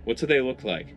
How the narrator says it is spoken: I asked

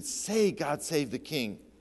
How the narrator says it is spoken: one of the bystanders pleaded

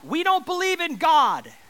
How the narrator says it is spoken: she just yelled out

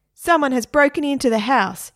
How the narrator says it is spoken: shouted

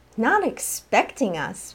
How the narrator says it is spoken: Vera snapped

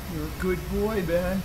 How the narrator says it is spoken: she mumbled, half smiling

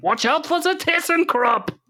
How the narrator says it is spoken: jump up and down on the spot, shouting

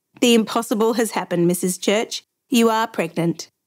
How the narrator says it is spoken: answered, laughing

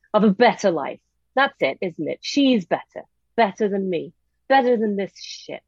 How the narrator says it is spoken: snarling

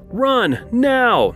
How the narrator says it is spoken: shouted

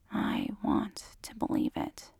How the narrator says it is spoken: whispers

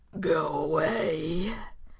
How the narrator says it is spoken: they said in a low, labored voice

